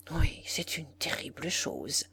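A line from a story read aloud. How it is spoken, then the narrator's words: Murmured, shivering. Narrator (French): murmura la comtesse avec un petit grelottement de frileuse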